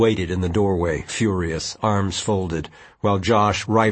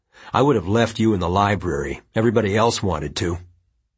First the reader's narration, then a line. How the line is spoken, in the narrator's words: Quentin said coldly